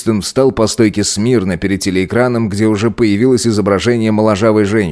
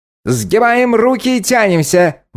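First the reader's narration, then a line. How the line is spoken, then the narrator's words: Shouted. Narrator (Russian): выкрикнула она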